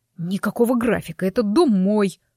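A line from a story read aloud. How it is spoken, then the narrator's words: Werewolf's growl. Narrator (Russian): прорычал оборотень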